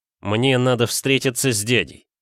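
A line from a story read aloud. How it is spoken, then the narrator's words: Flat, muffled, emotionless. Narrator (Russian): глухо, без эмоций произнес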